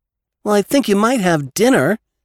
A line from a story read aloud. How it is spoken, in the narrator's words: said Jimmy in an injured tone